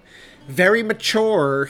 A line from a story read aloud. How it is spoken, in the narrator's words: he yelled down the hall